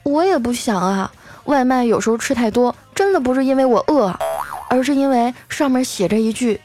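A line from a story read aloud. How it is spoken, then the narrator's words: Sighing. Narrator (Chinese): 丸子叹了口气说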